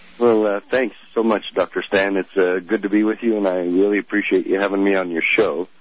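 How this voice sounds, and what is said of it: Voice affected by a cold. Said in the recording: “apologize for my voice. I've got a little cold”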